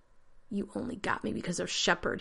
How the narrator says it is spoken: he croaked

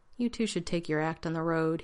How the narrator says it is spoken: he said in a tired voice

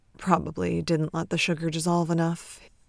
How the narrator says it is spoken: he mumbles

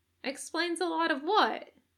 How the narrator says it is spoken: Natsume pipes up

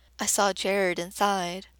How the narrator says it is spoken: her voice is so concerned

